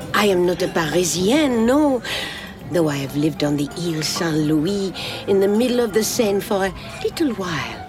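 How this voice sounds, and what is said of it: Strong French accent. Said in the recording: “Your accent is very French.”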